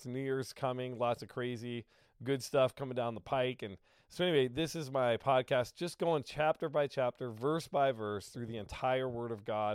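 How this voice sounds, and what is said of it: Sick-sounding voice. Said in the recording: “you'll have to excuse my voice. I got sick ... excuse my voice, my cloudiness in the brain here, because I just have a little bit of the sickness”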